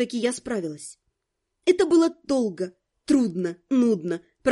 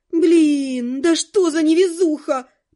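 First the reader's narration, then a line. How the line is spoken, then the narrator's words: Groan. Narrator (Russian): простонала я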